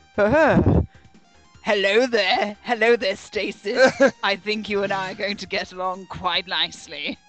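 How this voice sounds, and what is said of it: Put-on evil voice. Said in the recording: “evil voice”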